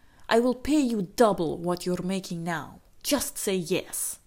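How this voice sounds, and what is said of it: Put-on accent for a character. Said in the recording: “I don't know why I did that accent”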